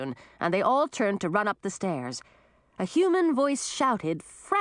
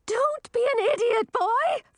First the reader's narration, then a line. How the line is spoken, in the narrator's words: Frizella screamed